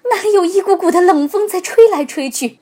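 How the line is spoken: Crying out. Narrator (Chinese): 游客们开始哭喊起来

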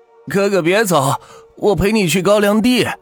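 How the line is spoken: Crazed shouting. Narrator (Chinese): 弟弟疯疯癫癫的 喊着

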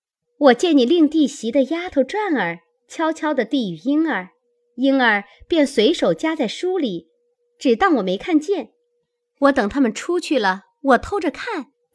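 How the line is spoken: Laughing. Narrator (Chinese): 湘云笑道

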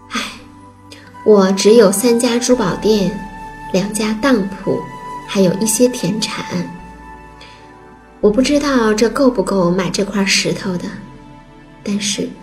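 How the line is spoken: Sighing. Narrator (Chinese): 珠宝店老板叹了口气，说

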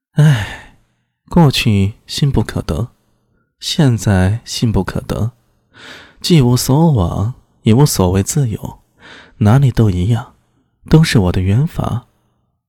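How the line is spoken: Light sigh. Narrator (Chinese): 他又轻叹了一声

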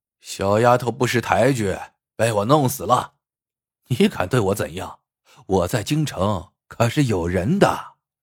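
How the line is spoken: Arrogant, loud laughter. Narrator (Chinese): 侯四便耍起了蛮横，大笑道

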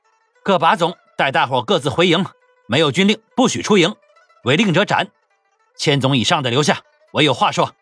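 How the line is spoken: Loud, angry. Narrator (Chinese): 他恨恨地骂了一声 高声说道

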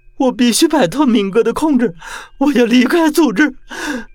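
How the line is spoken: Loud wailing sobs. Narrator (Chinese): 嚎啕大哭道

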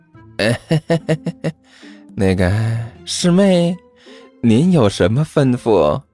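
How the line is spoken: Fawning, smiling. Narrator (Chinese): 一脸谄媚的对着小师妹笑道

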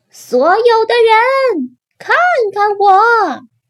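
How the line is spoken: Shouting. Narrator (Chinese): 大叫

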